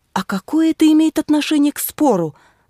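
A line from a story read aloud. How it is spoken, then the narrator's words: Exclamation. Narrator (Russian): воскликнула я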